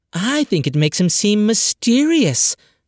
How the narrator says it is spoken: said dreamily

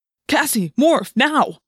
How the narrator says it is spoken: I snapped

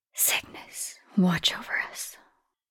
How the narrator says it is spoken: she whispered

